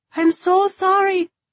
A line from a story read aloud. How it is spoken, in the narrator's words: she shouted